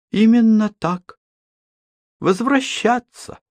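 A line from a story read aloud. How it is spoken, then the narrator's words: Calm. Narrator (Russian): спокойно сказала Элли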